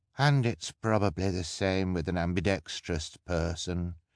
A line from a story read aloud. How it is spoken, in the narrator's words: Kevin said with a sigh